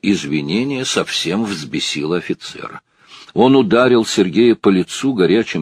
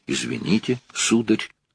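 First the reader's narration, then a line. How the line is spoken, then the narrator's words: Timid. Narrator (Russian): даже прибавил робко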